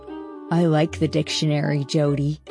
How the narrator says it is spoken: he said

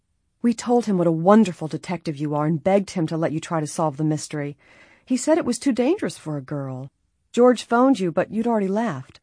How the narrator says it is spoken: Bess sighed

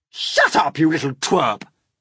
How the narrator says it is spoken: Aunt Spiker snapped

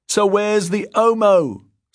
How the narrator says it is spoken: someone shouted

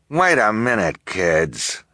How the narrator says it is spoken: Esme snarled

